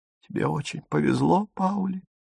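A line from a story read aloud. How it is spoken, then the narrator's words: Speaking through tears. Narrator (Russian): сквозь слезы выговорила она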